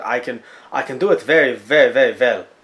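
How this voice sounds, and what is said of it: Bad put-on French accent. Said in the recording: “are you sure I can't do the French accent? ... if you think my French accent is bad”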